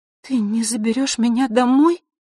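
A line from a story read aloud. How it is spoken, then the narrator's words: Confused breathless whisper. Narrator (Russian): растерянно прошептала она, часто дыша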